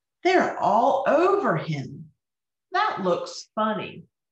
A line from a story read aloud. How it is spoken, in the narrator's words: They laughed and exclaimed